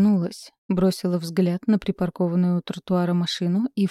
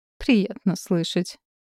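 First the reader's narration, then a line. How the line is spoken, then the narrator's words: Mother's snort. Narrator (Russian): фыркнула мама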